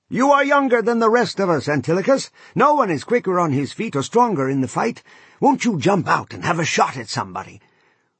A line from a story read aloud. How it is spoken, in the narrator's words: Menelaus called out to Antilochus